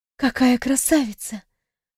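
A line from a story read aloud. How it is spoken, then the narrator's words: Awed whisper. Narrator (Russian): прошептала я, не в силах отвести взгляд от этого чуда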